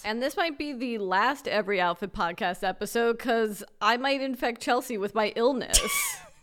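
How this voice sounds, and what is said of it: Slightly nasal, congested voice. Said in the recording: “my voice is a little nasally”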